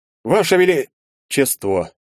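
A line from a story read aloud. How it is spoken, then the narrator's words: Cheerful start, trailing off. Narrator (Russian): Бодро начатое обращение умерло на моих губах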